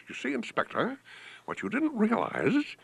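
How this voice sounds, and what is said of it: Impression of William Powell. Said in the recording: “one of his best impressions, in fact, he was the only one doing it, was that of a once favorite, famous actor named William Powell ... used to talk like this ... that impression. That's not how he talks at all in reality.”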